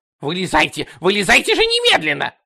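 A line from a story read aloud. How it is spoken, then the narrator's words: Shrieking manager. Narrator (Russian): завизжал управляющий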